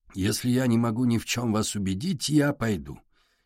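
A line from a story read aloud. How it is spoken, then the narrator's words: Quiet. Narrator (Russian): тихо сказал Портнов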